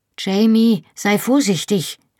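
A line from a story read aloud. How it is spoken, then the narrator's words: Calling out. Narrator (German): rief ich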